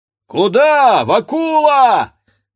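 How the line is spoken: Young men shouting. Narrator (Russian): кричали парубки

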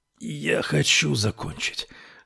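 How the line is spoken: Breathed out. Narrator (Russian): выдохнул он

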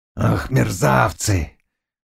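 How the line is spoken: Grumbling. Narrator (Russian): ворчал Шляхтич

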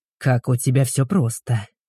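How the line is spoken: Grumble. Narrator (Russian): проворчал Игорь

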